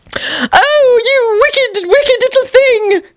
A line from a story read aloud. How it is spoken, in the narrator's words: cried Alice